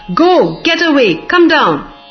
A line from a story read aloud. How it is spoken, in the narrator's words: roared